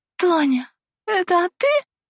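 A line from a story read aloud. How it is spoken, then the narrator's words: Hoarse, shrill question. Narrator (Russian): спросила я, сипло и визгливо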